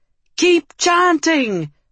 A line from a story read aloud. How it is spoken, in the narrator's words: Malquin screamed